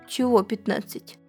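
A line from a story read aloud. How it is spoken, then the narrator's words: Plain. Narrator (Russian): спросил кролик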